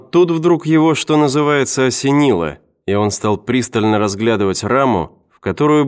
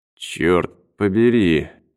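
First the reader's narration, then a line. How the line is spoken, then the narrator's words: Muttered. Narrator (Russian): пробормотал он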